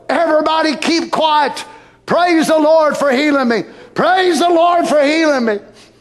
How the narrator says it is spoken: He'd raise up and holler

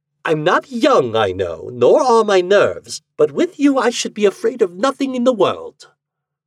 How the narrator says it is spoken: she said scornfully

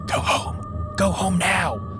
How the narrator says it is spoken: she whispers

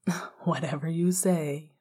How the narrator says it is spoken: Remus said with a light laugh

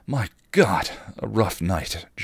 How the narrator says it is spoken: Giles gasped

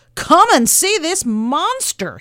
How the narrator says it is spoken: yelled

